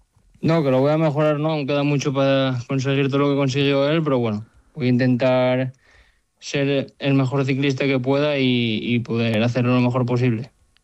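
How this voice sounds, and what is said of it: Asturian Spanish accent. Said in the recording (Spanish): “Me gusta mucho tu acento, asturiano.”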